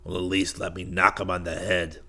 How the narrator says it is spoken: Tony growled

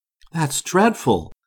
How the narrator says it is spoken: exclaimed the girl, really shocked

